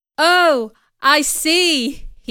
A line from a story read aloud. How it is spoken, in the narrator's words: he shouted